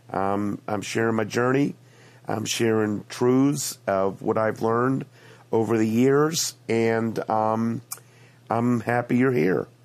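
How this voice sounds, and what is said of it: Congested voice from a cold. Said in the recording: “I have a cold. Yes, I have a cold.”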